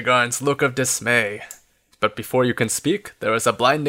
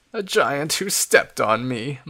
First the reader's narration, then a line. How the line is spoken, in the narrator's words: moans Fox